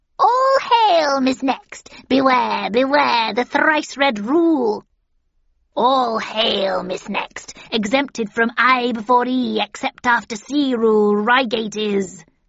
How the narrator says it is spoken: cackled the second

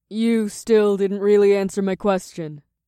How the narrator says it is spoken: Naomi grumbled ... yawned

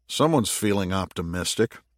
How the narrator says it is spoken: murmured Jake

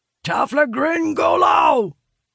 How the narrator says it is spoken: Vargas bellows

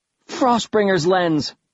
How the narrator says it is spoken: Bastille shouted

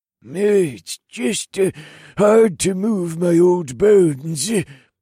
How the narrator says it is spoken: Zeb wheezed

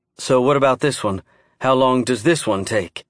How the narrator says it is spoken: Emma asked

